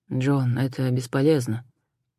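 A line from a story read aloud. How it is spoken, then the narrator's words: Quiet call. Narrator (Russian): тихо позвал Адам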